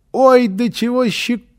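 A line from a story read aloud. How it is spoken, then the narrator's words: Squealing child. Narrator (Russian): котно визжал малыш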